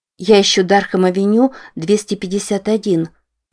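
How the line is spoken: Plain. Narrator (Russian): сказала Рози

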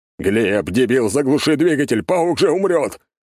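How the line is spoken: Panicked shout. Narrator (Russian): панически закричал Альберт

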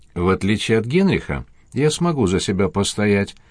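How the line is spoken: Plain. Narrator (Russian): ответил

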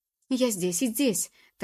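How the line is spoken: Hurried breathless forced mutter. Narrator (Russian): торопливо пробормотала она, принужденно улыбаясь ему, едва дыша от усталости

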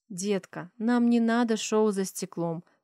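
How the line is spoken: Gentle persuasion. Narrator (Russian): Пытаюсь мягко переубедить дочь

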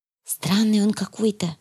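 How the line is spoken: Whispered. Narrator (Russian): шепнула я

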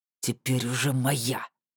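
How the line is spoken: Through gritted teeth. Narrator (Russian): процедил сквозь зубы Ратмир

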